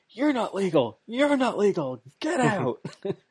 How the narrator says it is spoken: yelling, going

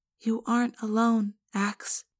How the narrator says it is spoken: Cassie said softly

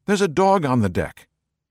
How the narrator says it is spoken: blurting out

